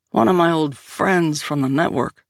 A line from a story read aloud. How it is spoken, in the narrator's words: Liam growled